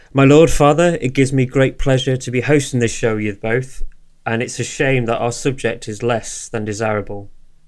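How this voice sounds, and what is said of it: British accent. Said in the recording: “has developed a British accent”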